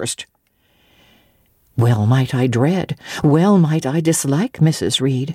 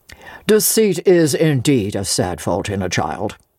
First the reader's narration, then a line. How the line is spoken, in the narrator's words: said Mr